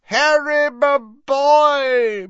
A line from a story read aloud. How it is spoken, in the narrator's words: boomed Slughorn